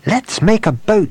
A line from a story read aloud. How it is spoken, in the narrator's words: cried